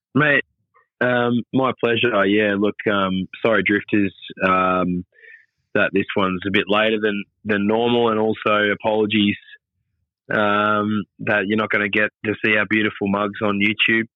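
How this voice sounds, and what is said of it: Sick, unwell-sounding voice. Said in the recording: “you sound like a very sick man”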